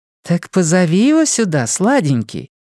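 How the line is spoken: Cooing. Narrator (Russian): проворковала Дарлин

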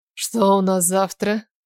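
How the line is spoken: Tired question. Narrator (Russian): Устало спросил Стивен

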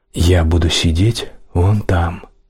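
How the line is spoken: Plain. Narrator (Russian): сказал Эд

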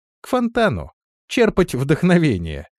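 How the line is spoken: Laughing. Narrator (Russian): рассмеялся Авангур

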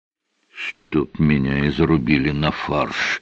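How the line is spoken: Whisper. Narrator (Russian): прошептал ПВР

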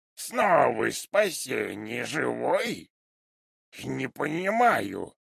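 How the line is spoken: Thoughtful drawl. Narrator (Russian): задумчиво протянул он

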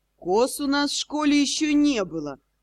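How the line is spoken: Sigh. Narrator (Russian): Росс вздохнул

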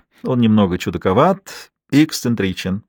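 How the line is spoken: Said, then laughed. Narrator (Russian): сказала она и рассмеялась

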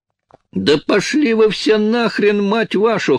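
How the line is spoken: Hoarse shriek over gunfire. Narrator (Russian): хрипло взвизгнула Джин, перекрывая шквал выстрелов

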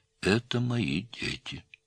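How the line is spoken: Sad. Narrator (Russian): печально сказал Наум

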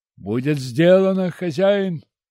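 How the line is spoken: Helmsman shouting back. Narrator (Russian): крикнул в ответ кормчий

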